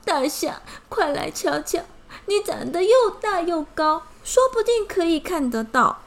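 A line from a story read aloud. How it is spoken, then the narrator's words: Crying ant. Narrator (Chinese): 蚂蚁哭着说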